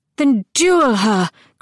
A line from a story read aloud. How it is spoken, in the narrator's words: Crown cried in obvious agony